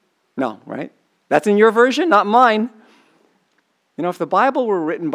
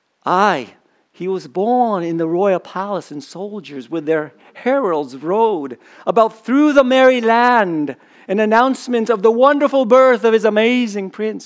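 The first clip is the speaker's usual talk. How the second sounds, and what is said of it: Bad put-on accent. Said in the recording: “I did a really bad accent there.”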